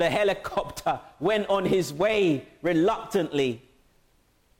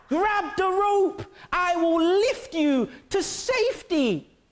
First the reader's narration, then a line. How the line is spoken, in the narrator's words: the pilot shouted down